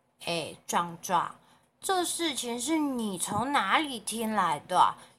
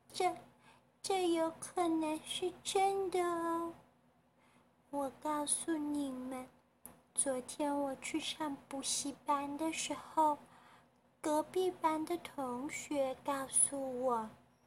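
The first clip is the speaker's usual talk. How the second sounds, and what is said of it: Quiet, trembling, nervous voice. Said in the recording (Chinese): “眼神慌张，瑟瑟发抖，小声的开口说话了”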